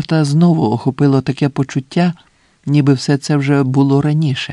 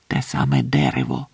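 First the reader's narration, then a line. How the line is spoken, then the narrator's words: Barely audible old man. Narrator (Ukrainian): сказав Ансельмо так тихо, що Джордан ледве почув його і здогадався, що старий говорить, не ворушачи губами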